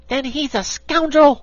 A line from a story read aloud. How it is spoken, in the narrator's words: cried the little dog